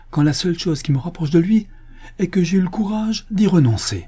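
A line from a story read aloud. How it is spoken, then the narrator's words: Exclaiming. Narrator (French): s'écria-t-il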